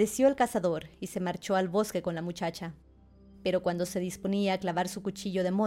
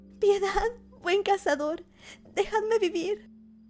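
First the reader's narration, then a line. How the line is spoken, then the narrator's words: Pleading. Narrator (Spanish): suplicaba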